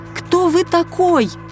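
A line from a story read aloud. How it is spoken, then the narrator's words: Polite yelling. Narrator (Russian): вежливо вопила Леся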